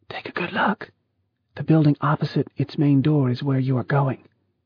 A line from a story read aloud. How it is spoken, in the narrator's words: she whispered